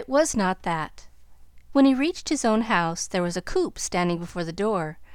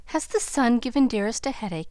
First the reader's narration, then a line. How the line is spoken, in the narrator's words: he inquired anxiously